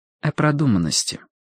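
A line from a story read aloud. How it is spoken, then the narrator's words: Calm. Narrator (Russian): спокойно ответила Вик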